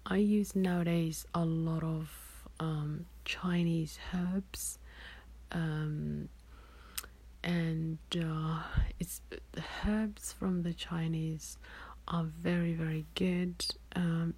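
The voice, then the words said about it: Hoarse, failing voice. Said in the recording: “losing my voice? But I am.”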